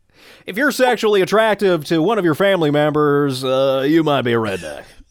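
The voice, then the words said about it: Exaggerated Southern accent impression. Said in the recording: “Southern ... it's Jeff Foxworthy ... That wasn't a good Jeff Foxworthy impression. That was just a random Southern ... It was an aggressive.”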